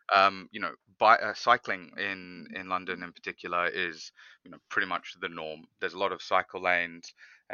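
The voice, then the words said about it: Australian accent. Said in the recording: “I do have the Aussie accent.”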